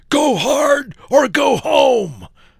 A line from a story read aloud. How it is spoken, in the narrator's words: bellowing